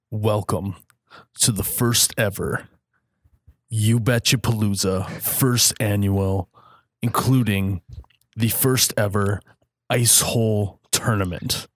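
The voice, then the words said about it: Announcer voice. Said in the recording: “That was my announcer voice.”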